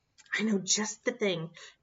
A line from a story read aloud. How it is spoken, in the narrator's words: Bear whispered